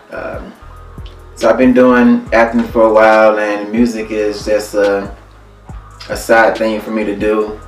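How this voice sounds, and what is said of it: Alabama accent. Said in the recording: “As you can tell by the accent, I'm not originally from Cleveland. I'm from Alabama.”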